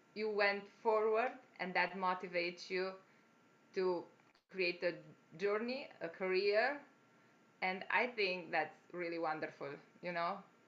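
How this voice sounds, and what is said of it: Foreign accent. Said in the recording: “My accent, they find.”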